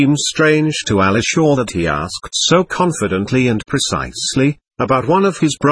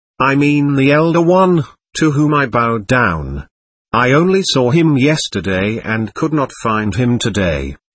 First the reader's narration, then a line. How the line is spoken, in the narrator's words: said Alishaw